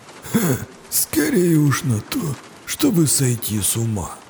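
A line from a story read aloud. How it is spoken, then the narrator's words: Mutter. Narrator (Russian): пробормотал Хаар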